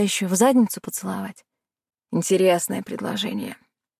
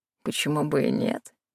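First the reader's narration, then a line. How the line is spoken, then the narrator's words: Snorting. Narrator (Russian): хмыкнул он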